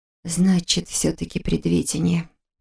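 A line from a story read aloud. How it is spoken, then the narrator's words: Muttered. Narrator (Russian): пробормотала она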